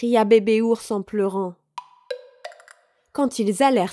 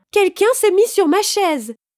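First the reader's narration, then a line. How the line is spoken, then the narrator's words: Mother bear exclaiming. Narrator (French): s'exclama maman ours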